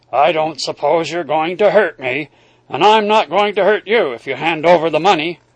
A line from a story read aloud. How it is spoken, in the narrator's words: he said gruffly